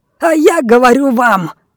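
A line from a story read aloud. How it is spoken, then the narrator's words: Uncontrolled shouting. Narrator (Russian): закричал Финиас, полностью потеряв контроль над собой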